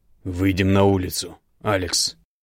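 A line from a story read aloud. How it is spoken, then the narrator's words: Hissing, shaking with suppressed rage. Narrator (Russian): прошипел, но голос его сотрясался от едва сдерживаемой ярости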